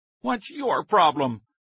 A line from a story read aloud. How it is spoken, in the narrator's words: Billy Wilbur shouted angrily